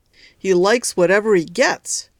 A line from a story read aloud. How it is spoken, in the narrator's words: shouted the boss